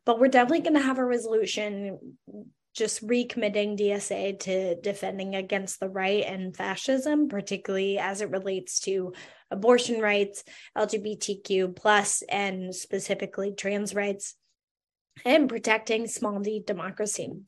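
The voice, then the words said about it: Hoarse, fading voice. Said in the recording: “I'm losing my voice, as you can hear.”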